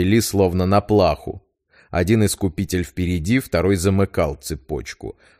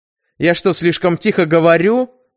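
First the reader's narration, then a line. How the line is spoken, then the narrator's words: Irritated snort. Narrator (Russian): раздраженно фыркнул отец-распорядитель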